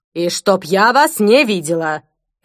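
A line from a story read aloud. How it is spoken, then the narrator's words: Barking. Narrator (Russian): рявкнула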